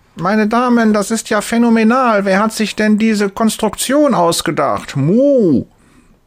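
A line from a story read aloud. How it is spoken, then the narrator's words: Loud call. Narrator (German): Laut ruft sie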